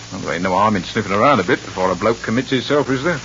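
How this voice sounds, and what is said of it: Cockney accent. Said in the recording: “Cockney”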